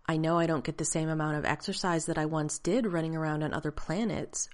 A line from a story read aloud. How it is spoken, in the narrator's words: Rodney said in the clear, even tone he'd been schooled to use